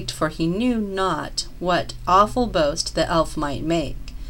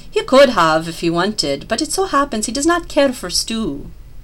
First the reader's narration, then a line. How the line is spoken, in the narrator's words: Tweedleknees exclaimed